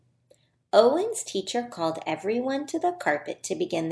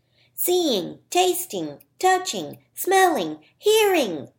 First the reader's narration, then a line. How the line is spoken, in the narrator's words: Owen shouted